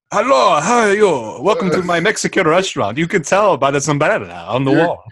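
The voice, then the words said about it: Put-on foreign accent. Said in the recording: “You're clearly Italian. Why are you speaking with that accent?”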